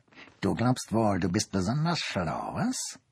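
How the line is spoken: Growled. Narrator (German): knurrte sie

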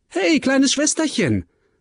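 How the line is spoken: Cheerful calling out. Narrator (German): rief er fröhlich

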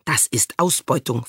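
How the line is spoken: Hissing. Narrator (German): fauchte sie

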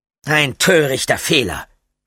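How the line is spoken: Mocking. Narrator (German): spottete Damien

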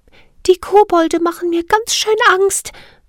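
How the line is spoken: Trembling, frightened voice. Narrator (German): sagte Siri mit zitternder Stimme

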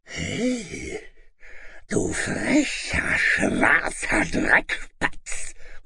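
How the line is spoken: Dragon's startled grunt. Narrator (German): grunzte der Drache verblüfft

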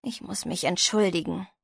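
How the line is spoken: Tired murmur. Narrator (German): murmelte Frankie müde

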